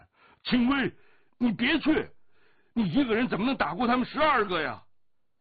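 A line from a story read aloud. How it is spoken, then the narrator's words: Loud cry. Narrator (Chinese): 降龙的大叫声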